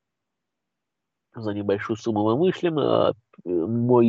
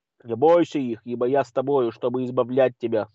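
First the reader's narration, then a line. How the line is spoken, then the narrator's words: Plain. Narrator (Russian): сказал Господь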